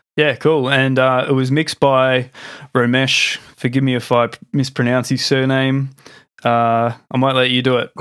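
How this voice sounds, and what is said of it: Australian English accent. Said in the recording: “my Australian accent”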